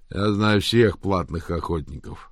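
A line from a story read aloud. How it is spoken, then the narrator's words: Through gritted teeth. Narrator (Russian): процедил бугай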